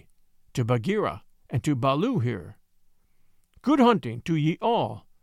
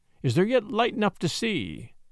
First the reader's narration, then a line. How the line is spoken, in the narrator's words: From the walls came a moan like the wind in the treetops